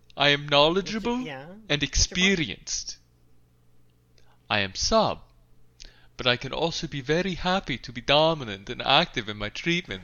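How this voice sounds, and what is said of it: Mock vampire-style Eastern European accent. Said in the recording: “I seem to have gone into a Bela Lugosi accent ... I noticed you were switching into a vampire mode.”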